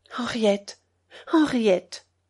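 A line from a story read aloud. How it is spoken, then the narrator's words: Sad. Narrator (French): dit tristement Geneviève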